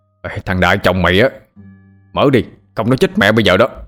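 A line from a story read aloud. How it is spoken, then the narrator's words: Irritated, harsh. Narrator (Vietnamese): Ông Kiên có chút bực mình, ông gằn giọng nói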